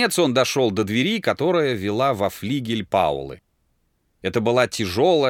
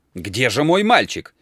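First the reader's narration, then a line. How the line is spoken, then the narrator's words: Shouted. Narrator (Russian): кричал Дик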